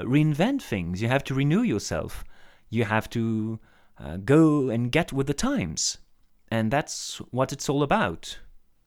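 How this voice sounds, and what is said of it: Non-native accent, hesitant stuttering speech. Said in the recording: “my hesitation and my uh, and my stuttering ... my um, very fluctuating accent, you know, I'm not a native speaker”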